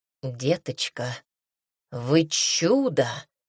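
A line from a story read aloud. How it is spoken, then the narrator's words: Surprised exhale. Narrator (Russian): удивленно выдохнула Эллен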